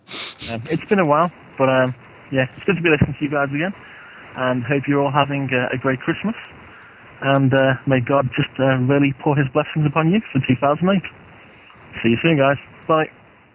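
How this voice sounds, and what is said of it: Liverpool English accent. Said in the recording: “from Liverpool in the UK ... I like his accent so much”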